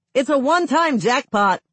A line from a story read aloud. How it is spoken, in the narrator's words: Watchman shouts down